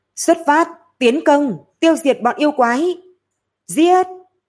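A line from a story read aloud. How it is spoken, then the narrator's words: Loud battle cry. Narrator (Vietnamese): Lâm Phàm lớn tiếng nói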